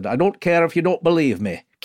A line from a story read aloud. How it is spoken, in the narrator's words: she goes, in her Yorkshire accent